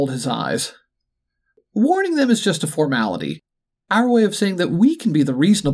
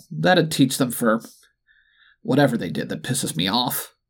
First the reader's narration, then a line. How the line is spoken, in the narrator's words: the duck muttered